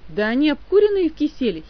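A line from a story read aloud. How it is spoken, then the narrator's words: Disrespectful student giggling. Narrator (Russian): хихикнул непочтительный ученик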